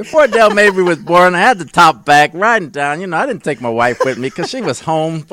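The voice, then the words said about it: Brooklyn accent. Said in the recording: “A better Brooklyn accent than I got.”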